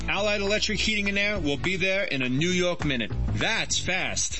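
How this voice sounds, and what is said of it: New York accent. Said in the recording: “people still ask me if I'm from New York ... You don't hear it, do you?”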